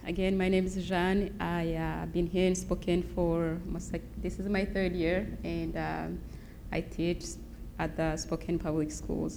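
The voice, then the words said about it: Noticeable non-local accent. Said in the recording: “she's got a pretty sweet accent ... I don't think it comes from Spokane”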